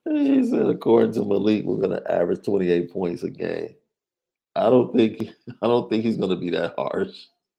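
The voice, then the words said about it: Deeper voice from a cough. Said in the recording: “Been dealing with a cough all weekend, so. Now, I'm sure my voice sounds a little bit more baritone”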